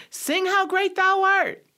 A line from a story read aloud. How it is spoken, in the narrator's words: somebody shouted